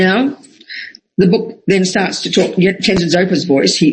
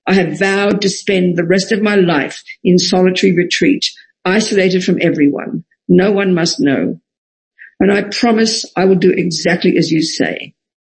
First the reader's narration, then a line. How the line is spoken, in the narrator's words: Rinzai Wangchuck said